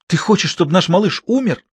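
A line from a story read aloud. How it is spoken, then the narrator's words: Desperate woman exclaiming. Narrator (Russian): в отчаянии воскликнула женщина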